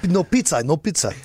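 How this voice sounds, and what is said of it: Poor fake Russian accent. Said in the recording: “read that in a Russian accent? ... That was an awful Russian accent.”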